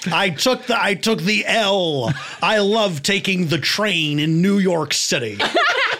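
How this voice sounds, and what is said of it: Over-enunciated exaggerated American accent. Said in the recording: “your over-American accent. ... Your over-enunciated...”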